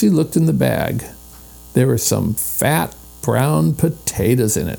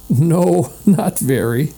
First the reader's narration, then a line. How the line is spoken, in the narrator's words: said Henry, laughing